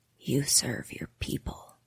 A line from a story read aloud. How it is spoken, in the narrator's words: she whispers